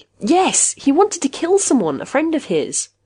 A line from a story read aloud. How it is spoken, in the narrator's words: He looked up and said eagerly